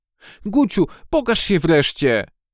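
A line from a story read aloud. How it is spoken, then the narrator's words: Called out. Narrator (Polish): zawołała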